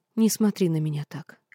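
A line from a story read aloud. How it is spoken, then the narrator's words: Quiet plea. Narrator (Russian): тихо попросила она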